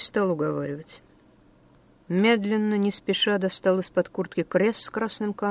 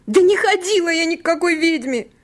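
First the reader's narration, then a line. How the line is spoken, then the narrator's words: Shrill squeal. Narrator (Russian): взвизгнула Несса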